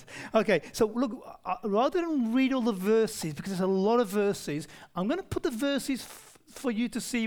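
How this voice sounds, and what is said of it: Rough, non-posh English accent. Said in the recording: “really English accent ... why Jeff and I sound so different, I'm from the really rough area, and he's from the really posh area”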